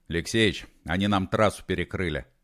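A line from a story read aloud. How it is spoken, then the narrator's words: Calm. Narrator (Russian): спокойно сообщил Холодовский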